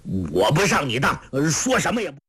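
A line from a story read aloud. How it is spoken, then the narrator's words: Angry. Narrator (Chinese): 侯通海怒道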